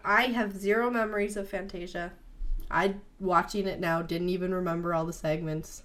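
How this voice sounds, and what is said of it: Voice sounds a little funny, sick. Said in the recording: “my voice sounds a little funny today, it is, because I have been very sick”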